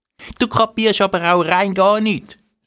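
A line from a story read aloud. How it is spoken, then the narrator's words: Calls out. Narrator (German): ruft Nini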